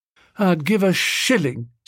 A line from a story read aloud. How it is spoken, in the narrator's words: said Biffy, wistfully